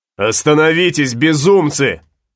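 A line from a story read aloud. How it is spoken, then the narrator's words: Shouting. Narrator (Russian): закричал Флорес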